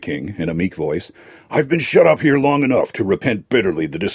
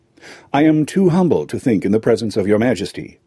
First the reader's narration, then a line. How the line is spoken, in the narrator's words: said Calico